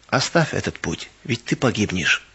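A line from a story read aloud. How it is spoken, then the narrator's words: Persuading. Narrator (Russian): тихо подходил ко мне и убеждал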